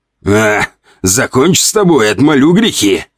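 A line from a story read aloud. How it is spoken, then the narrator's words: Sorcerer's roar. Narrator (Russian): взревел ведун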